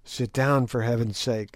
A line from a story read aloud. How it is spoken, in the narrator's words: whispered